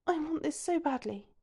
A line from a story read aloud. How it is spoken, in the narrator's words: whispers in his ear